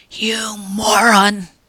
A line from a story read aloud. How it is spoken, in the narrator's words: hissed at him furiously